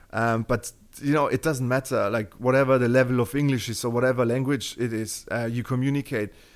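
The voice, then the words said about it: German-accented English. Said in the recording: “my Terminator accent that, you know, I'm from Germany most likely. Yeah, you can hear it.”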